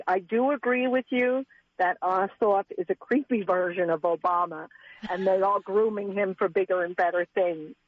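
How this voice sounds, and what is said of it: New York Long Island accent. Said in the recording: “You sound like my Brooklyn side of the family ... I grew up on Long Island ... Long Island is kind of Brooklyn. It's Brooklyn-like”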